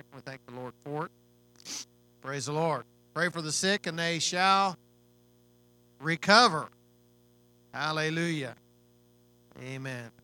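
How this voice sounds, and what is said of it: Weakened voice, still recovering. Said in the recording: “a respiratory thing going around ... took my voice from me, but my voice is coming back”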